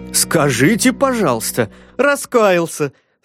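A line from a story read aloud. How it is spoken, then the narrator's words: Haughty laughing exclamation. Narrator (Russian): с надменным смехом воскликнул герцог Честерский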